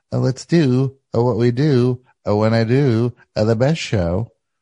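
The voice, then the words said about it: Imitates another person's voice. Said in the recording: “Let's say I sound like Claire O'Kane now... That's my impression of you.”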